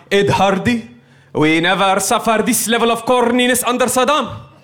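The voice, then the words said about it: Imitated Arab accent. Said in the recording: “my Arab guy impression? ... How does it still sound racist?”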